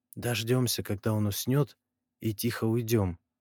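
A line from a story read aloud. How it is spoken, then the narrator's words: Whisper. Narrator (Russian): прошептал я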